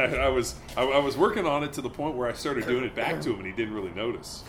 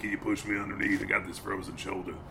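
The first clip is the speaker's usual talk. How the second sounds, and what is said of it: Impression of a friend's voice. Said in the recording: “good Breeze impression”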